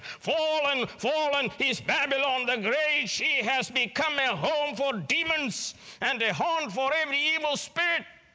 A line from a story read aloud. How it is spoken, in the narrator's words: with a mighty voice he shouted